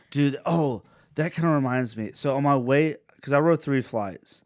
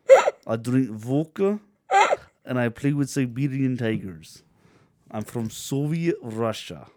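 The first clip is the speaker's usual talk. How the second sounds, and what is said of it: Put-on Russian accent. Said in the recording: “Why aren't you doing this in your Russian accent?”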